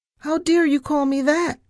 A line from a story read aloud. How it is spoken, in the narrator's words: I shrieked